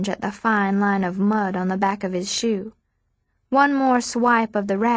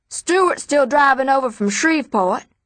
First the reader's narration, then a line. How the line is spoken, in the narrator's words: the senator hollers